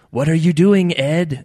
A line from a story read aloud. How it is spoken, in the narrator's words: asked